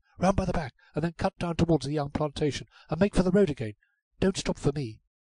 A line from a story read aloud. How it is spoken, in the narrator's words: gasps Ruth